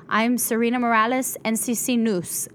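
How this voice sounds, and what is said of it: Reenacts her former accent. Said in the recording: “Foote had me lose my accent ... I would say that noose, ... that's not a noose, right? ... It's news, right?”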